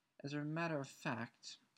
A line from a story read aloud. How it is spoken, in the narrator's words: added, her voice now trembling slightly